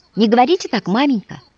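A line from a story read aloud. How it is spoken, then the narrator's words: Exclamation. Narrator (Russian): воскликнул Вася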